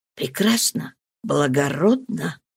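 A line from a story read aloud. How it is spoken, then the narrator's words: Whispered. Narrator (Russian): шепнул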